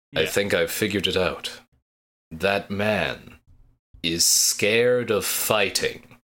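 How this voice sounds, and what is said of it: Deep put-on character voice. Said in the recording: “Her inside voice is my deep voice.”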